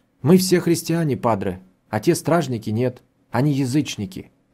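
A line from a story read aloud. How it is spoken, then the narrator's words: Calm, matter-of-fact. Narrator (Russian): ответила она так спокойно, словно это различие не имело значения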